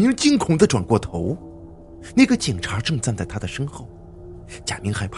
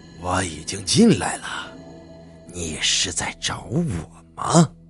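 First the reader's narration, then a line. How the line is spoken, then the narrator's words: Old, hoarse voice. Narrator (Chinese): 一个苍老沙哑的声音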